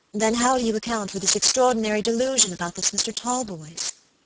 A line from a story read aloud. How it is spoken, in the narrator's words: asked my lady